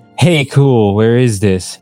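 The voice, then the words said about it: Emo voice. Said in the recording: “He asked in an emo voice.”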